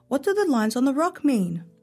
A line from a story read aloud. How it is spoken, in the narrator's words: Omar called out